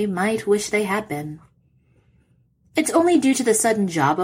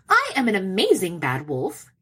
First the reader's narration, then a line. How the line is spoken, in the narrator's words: he snaps